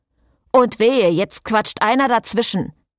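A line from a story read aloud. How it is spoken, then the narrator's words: Calling out. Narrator (German): rief der aus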